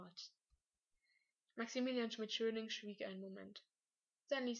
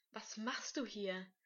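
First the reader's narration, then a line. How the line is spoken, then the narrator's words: Angry question. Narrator (German): fragte er zornig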